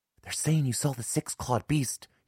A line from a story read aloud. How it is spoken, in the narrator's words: he whispered